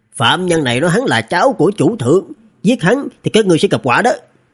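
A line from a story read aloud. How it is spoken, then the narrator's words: Sharp shout. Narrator (Vietnamese): con ong đầu người quát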